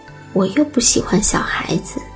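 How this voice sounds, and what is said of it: Quiet mumbling voice. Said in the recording (Chinese): “小声的咕哝说”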